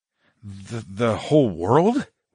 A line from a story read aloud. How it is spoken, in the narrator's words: I stammered, and then chuckled